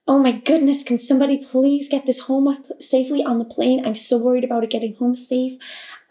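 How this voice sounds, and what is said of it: Deliberately poor American accent. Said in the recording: “I'm going to butcher the American accent right now.”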